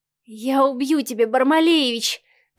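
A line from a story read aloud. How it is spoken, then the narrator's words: Passionate moan. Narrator (Russian): простонала Марианна, не имея больше сил сопротивляться ярким эмоциям и лавине страсти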